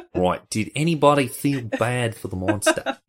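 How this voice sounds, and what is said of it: Put-on Australian accent. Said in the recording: “You gotta say that in an Australian accent, though.”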